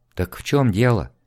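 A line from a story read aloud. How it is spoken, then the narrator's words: Quiet question. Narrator (Russian): тихо спросила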